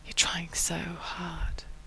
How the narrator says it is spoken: Rodney whispers

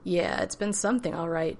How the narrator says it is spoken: John laughed

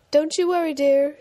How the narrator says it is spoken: she called out after him

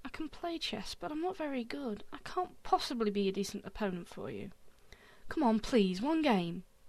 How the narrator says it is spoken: sighed

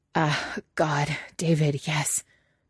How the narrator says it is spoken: Patrick gasps

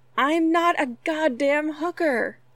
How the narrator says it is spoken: In sheer frustration, Stiles tilted his head to the sky and yelled

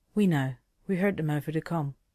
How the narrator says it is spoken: said, her voice soothing

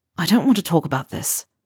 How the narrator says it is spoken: Harry mutters

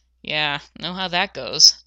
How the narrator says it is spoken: John sighed

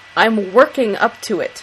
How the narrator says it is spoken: Sam grumbles

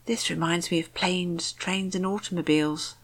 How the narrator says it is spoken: Rodney said in a hushed voice

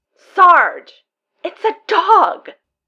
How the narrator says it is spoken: Simmons cries

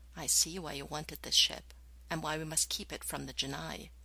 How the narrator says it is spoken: whispered

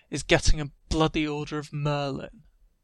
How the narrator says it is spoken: Ron sneers

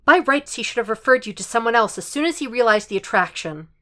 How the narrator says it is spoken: She blurts out

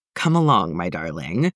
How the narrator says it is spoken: said, once his chuckles had faded slightly

